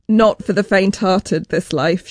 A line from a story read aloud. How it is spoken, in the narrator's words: she says